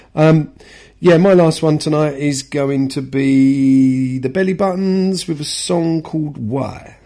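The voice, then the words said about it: Congested voice with a cold. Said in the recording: “I've got a bit of a cold. Need to keep blowing my nose.”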